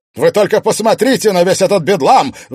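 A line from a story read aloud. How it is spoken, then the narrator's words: Sudden shout. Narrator (Russian): внезапно закричал мэр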